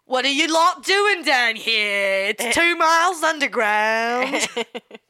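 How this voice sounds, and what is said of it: Put-on Australian-sounding accent. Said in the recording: “That's maybe Australian.”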